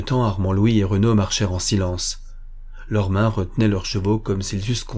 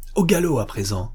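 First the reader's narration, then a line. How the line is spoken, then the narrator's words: Exclaiming. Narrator (French): s'écria-t-il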